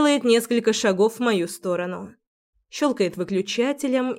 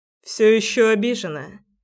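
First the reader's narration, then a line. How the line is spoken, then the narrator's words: Calm, unconcerned question. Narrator (Russian): спрашивает спокойным голосом, словно ничего не происходит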